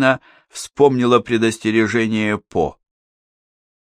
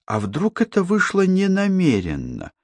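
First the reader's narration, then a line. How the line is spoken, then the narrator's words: Thoughtful. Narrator (Russian): задумчиво сказала Катерина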